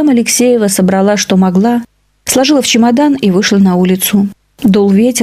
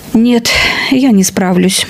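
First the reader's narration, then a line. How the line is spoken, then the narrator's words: Glum, despondent woman. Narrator (Russian): уныло покачала головой бывшая хозяйка квартиры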